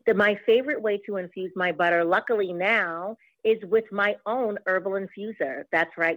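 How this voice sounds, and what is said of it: Boston accent. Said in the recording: “I am a Boston girl through and through, and I may have a tad bit of an accent.”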